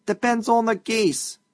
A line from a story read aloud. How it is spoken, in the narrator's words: shouted a voice